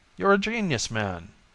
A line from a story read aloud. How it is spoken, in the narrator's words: Jones exclaimed